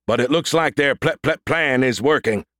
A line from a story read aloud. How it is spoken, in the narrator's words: boomed Brody